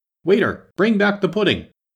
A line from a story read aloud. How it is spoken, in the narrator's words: she called out